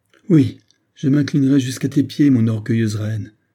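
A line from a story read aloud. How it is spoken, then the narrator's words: Loud exclamation. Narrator (French): s'écria Loïko d'une voix forte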